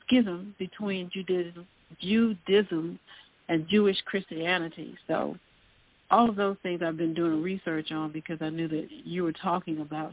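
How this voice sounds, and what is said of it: Southern American accent. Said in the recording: “Excuse my southern accent.”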